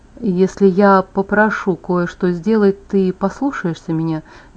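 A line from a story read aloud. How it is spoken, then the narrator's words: Soft, quietly worried question. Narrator (Russian): Мягко, со скрытым беспокойством, спросил Эдвард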